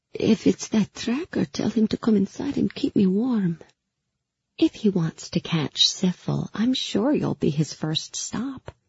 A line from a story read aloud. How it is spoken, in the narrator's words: I said sweetly